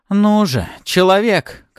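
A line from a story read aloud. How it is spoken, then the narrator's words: Shouting over wind. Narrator (Russian): кричала Артара, так как ветер вокруг нас настолько сильно шумел, что мог оглушить любого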